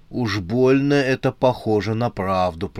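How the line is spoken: Through gritted teeth. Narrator (Russian): процедил сквозь зубы желтый

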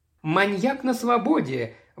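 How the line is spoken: High-pitched exclamation. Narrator (Russian): воскликнула миссис Джеральд на самой высокой ноте

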